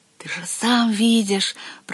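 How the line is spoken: Whispered. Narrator (Russian): прошептал колодезный дух

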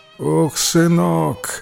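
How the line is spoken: Sighing old woman. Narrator (Russian): вздохнула старушка

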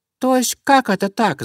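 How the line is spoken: Mice squeaking. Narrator (Russian): запищали мышки

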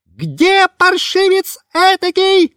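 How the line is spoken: Shrill monkey shriek. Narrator (Russian): визжала обезьяна

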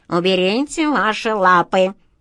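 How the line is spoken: Gloomy grumbling cat. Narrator (Russian): мрачно буркнула кошка

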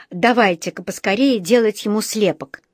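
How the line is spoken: Angry, puffing. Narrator (Russian): сказал он, сердито пыхтя

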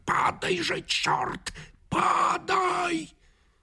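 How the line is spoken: Fierce shouted whisper. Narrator (Russian): режиссер страшным шепотом крикнул

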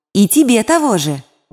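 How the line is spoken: Shouted. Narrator (Russian): крикнул второй ангел Искра

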